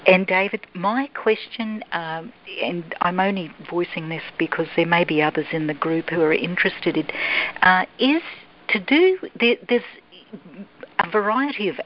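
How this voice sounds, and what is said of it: Australian accent, North Queensland. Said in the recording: “clearly mine is quite distinctive ... So I'm assuming you have an Australian accent? ... Yes, that's correct. ... North Queensland.”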